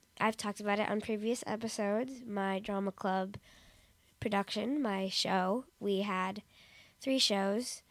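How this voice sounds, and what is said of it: Scratchy, sore-throated voice. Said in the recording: “my throat hurts and my voice is a little scratchy”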